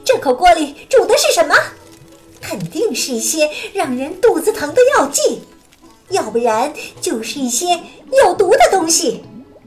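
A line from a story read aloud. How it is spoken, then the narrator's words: Loud question. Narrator (Chinese): 他 … 大声地问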